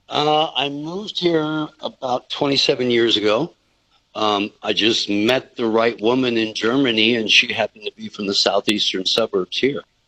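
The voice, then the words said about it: Non-local foreign accent. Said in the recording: “Your accent isn't local”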